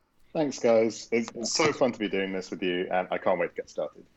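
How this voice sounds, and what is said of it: British accent. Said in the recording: “your voice and your accent ... British”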